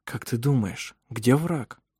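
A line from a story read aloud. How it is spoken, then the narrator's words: Quiet question. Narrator (Russian): спросил тихо Даниэль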